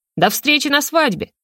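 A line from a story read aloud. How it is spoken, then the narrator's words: Shouted. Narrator (Russian): крикнул Южный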